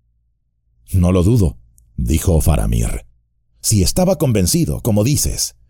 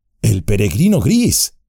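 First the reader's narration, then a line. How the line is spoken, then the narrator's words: Exclaimed. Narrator (Spanish): exclamó Frodo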